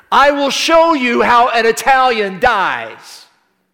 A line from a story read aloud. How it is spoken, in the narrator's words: he shouted defiantly in Italian